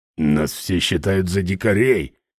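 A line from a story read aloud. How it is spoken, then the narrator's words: Grumbling. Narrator (Russian): проворчал Ральф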